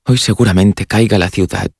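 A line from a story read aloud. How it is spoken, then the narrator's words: Musing murmur. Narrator (Spanish): murmuró el inglés como pensando en voz alta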